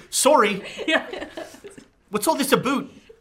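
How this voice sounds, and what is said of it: Put-on Canadian accent. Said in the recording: “I'm rolling this for your accent chart. ... now I'm Canadian.”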